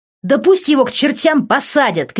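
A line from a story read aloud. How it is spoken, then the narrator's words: Shout. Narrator (Russian): крикнула я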